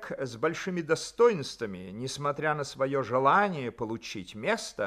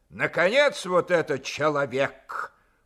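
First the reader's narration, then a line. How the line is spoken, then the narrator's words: Weighty, stern. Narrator (Russian): проговорил он значительно и строго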